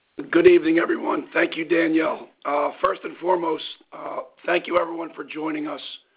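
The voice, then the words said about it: Strained, worn-out voice. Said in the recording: “apologize for my voice. ... I've gave it all this past weekend”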